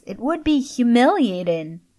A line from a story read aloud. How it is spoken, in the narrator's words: whined Luke